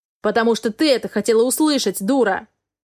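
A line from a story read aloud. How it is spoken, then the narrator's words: Man shouting. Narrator (Russian): Закричал мужчина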